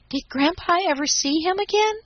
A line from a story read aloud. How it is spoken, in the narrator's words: asked Daisy eagerly